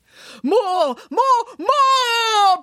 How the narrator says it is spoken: bellowed the on-screen Nanny Piggins

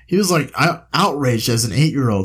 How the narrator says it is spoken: he says with a laugh

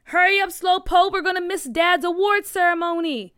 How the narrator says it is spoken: her brother Booker yelled out of the window

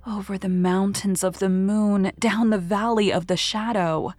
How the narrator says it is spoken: answered dreamily

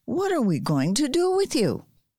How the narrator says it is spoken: cried

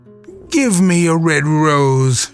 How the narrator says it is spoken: she cried

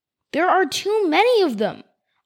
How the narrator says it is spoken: Archie said as fiercely as he could manage

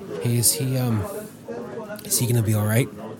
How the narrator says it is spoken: Out of curiosity, the boss whispered

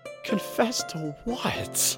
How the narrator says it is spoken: Jerry moaned

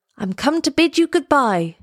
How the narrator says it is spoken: he cried

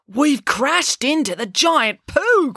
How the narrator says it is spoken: cried Finn

